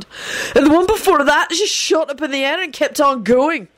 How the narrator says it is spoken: Benji yelled excitedly

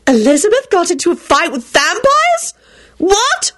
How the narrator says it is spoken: shrieked Solange

